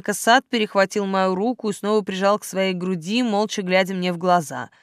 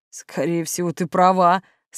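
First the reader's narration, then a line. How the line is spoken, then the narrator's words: Hoarse agreement. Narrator (Russian): согласился он осипшим голосом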